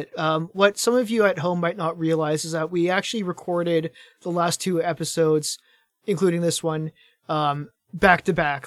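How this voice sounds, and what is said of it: Strained, fading voice. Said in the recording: “my voice is starting to go away a little bit ... I do not have the most enduring voice”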